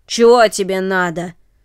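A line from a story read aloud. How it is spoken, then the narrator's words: Rough voice. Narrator (Russian): спросил он грубым голосом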